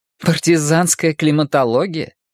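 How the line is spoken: Snort. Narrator (Russian): Майя фыркнула

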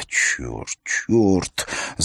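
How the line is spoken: Moaning, female. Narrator (Russian): Застонав, она

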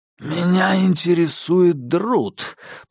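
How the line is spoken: Growling. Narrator (Russian): прорычал инспектор

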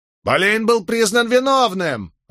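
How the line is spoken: Shrill female voice. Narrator (Russian): раздался визгливый женский голос

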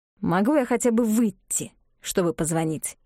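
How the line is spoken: Asked through gritted teeth. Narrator (Russian): сквозь зубы спросил Оскар

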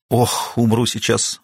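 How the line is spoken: Relieved exhale. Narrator (Russian): выдохнула она с облегчением

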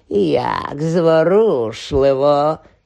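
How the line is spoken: Hissing. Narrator (Ukrainian): зашипіло воно

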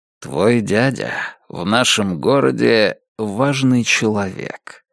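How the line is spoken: Soft remark. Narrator (Russian): мягко заметил он

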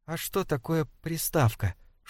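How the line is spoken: Whispered question. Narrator (Russian): шепотом спрашивает Сара

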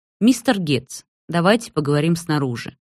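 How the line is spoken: Polite, calm. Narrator (Russian): предлагает Хавьер, вежливо и спокойно

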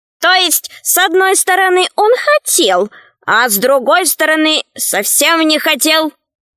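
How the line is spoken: Squeaky voice. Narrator (Russian): пропищала ящерица

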